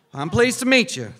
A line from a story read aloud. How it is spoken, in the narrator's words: the woman said